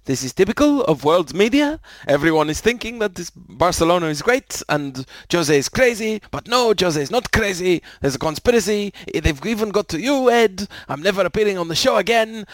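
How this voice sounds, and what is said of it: Poor impression drifting into Russian accent. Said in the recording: “This voice is clearly not Mourinho, but whatever. Anyway, now he's become Russian. ... my accent went just completely wrong.”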